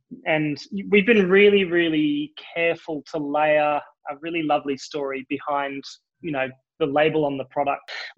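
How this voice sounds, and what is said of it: Australian accent. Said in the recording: “you can probably hear it in my accent. I am Australian.”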